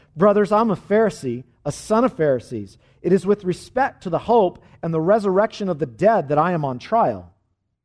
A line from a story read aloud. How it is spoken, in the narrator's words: Paul perceived that one part were Sadducees and the other Pharisees, he cried out in the council